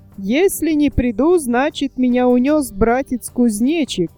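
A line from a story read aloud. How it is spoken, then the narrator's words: Laughing turtle. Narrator (Russian): засмеялся братец черепаха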